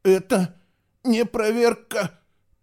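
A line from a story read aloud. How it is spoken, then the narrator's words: Squirrel kit moaning, struggling. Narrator (Russian): Простонал бельчонок, с трудом произнося слова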